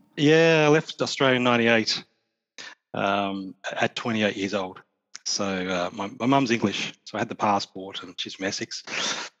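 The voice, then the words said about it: Australian accent. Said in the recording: “got a bit of an accent. yeah, a fellow Australian.”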